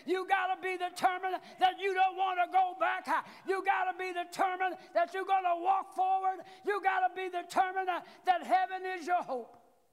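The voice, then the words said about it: Hoarse, strained preaching voice. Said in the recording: “I'm getting hoarse”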